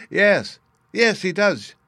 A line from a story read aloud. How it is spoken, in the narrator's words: she cried